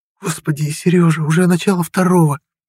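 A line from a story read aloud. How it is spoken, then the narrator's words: Frightened. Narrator (Russian): испуганно сказала Маша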